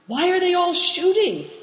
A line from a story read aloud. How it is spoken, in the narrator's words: asked Christian indignantly